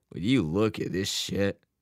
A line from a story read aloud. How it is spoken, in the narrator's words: his dad groaned